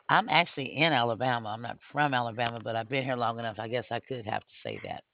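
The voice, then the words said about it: Southern American accent. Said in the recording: “your accent... You really sound Southern... Honey, you do have a Southern accent.”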